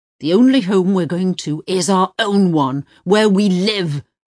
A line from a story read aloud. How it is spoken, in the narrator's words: Uwe roared at her, and in pure frustration and anger